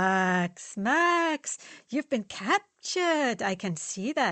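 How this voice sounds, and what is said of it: Usual voice. Nothing is said of it.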